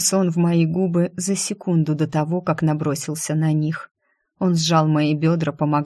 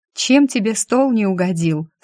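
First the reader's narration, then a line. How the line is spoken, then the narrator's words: Laughing question. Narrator (Russian): спросила я, засмеявшись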